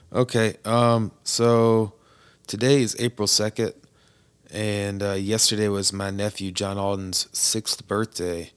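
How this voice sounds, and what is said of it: Hoarse, strained voice. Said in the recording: “my voice is kind of out”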